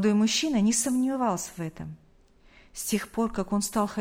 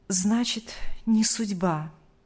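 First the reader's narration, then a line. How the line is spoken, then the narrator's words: Sigh. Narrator (Russian): вздохнул он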